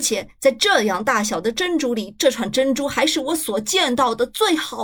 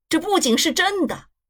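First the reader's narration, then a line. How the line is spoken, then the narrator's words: Shouting. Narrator (Chinese): 开拉达先生喊起来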